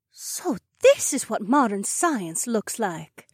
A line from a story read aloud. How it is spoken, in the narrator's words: Emma whispered to me